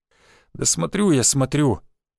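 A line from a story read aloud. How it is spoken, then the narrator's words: Sad. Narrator (Russian): печально сказал водитель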